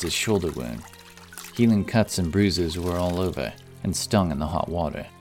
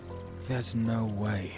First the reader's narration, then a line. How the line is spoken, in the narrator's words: whispered to himself